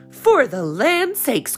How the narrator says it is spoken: cried Mrs

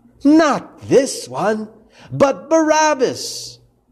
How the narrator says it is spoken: yelled

